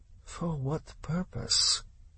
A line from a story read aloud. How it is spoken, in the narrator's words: Dubrunin lowered his voice